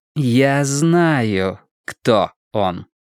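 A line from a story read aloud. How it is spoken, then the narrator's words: Slow, deliberate. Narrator (Russian): медленно проговорила Алиса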